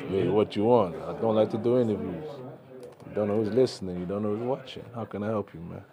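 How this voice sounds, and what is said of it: Godfather-style mobster voice impression. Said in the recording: “Your impression of Godfather”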